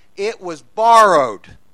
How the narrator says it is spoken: he cried out

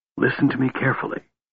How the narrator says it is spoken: the cleric hissed, shaking the frantically struggling kender as a wolf shakes a bird to break its neck

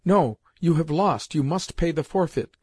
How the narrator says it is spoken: cried Seriosha at that moment

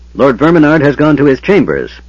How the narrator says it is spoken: Pyros called out, irritated at the interruption

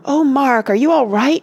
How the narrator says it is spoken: she cried, running up to him

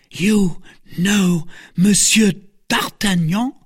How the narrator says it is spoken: cried the novice

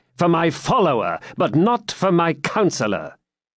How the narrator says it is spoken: said John, haughtily

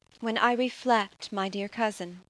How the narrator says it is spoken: said she

